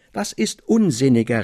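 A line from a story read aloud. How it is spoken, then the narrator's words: Excited cry, jumping up. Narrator (German): rief ich vom Stuhle aufspringend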